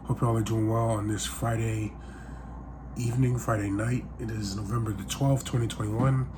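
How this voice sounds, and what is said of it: Sick, under-the-weather voice. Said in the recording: “If you can tell by my voice, I'm a little sick.”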